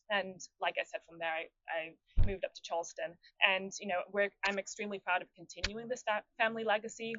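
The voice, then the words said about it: Distinctive accent. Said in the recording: “you have a very unique accent”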